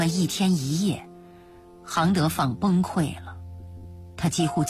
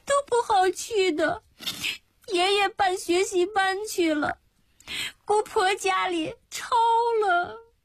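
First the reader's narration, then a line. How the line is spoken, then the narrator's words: Crying while speaking. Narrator (Chinese): 迎霜一边哭一边说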